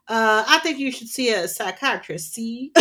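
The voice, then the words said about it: Old-timey put-on accent. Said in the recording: “that's my old-timey accent.”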